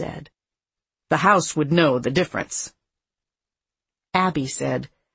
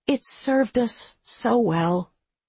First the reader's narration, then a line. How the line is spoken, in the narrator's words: she said wistfully